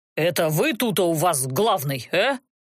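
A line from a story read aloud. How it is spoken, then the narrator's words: Menacing question, leader. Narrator (Russian): Грозно поинтересовался их предводитель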